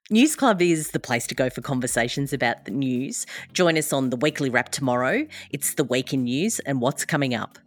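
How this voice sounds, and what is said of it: Australian accent. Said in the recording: “my Australian accent feel more strong than when I'm talking to a well-spoken Brit”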